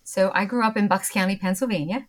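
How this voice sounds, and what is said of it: Philadelphia accent. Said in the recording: “my sort of Philadelphia accent”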